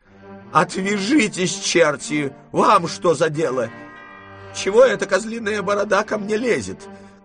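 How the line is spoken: Woman shouting angrily. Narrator (Russian): кричала она на Дегрие

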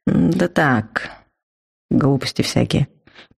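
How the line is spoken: Mumble. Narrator (Russian): промямлил он

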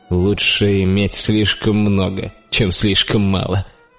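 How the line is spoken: Laughing. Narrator (Russian): засмеялся Риманец

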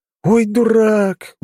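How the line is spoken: Breathless exhale. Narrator (Russian): выдохнул я

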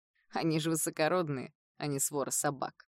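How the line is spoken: Snorting. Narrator (Russian): хмыкнул Кайл

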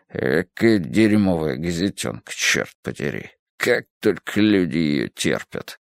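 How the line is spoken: Drowsy mutter. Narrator (Russian): Разморенный жарой облачного августа, бормоча при этом

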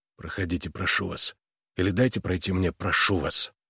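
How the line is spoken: Hoarse whisper. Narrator (Russian): Хриплым шепотом Харлан произнес

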